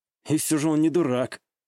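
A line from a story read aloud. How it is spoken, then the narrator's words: Satisfied snort. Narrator (Russian): Удовлетворенно хмыкнул я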